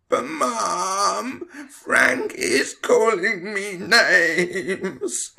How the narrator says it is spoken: Tom whined

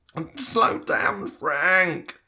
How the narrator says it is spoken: Tom whined

